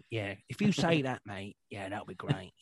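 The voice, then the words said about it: Put-on Cockney accent. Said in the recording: “He's very like Cockney accent.”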